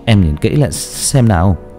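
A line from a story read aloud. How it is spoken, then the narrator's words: Frightened trembling voice. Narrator (Vietnamese): anh Thiên đang sợ đến mức mà giọng cũng run rẩy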